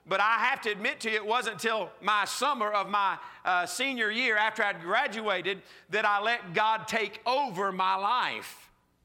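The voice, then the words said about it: Southern US accent. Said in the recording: “I'm from South Georgia, okay? If you can't tell from the accent by now, that's where this accent comes from. Good old South Georgia.”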